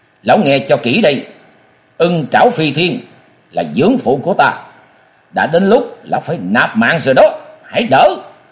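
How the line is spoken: Loud interrupting shout. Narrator (Vietnamese): Chàng quát lớn ngắt lời lão

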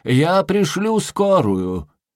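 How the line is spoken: Parting shout. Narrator (Russian): На прощание он крикнул

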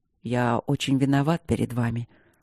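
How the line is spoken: Barely audible, humble. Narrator (Russian): сказал Кембридж едва слышно, выражая на лице соответствующую моменту торжественность и смирение

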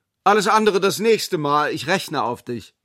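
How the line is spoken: Called back. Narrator (German): rief zurück

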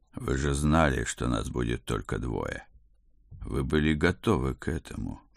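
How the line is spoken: Soft but insistent. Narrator (Russian): мягко нажимал я

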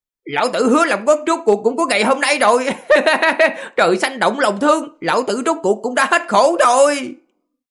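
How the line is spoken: Manic laughter, loud voice. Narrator (Vietnamese): Gã điên cuồng cười rộ lên, lớn tiếng, nói

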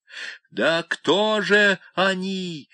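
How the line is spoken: Breathless angry cry. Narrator (Russian): удалось все же выкрикнуть ему сквозь гневную одышку

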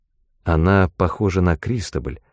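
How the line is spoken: Plain. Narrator (Russian): сказала Мот

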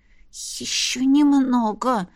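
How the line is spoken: Whisper. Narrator (Russian): прошептала я

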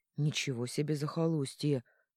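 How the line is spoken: Grumbling. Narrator (Russian): ворчал Орнелл

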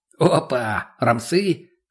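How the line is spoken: Short chuckle. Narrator (Russian): хохотнул мутный

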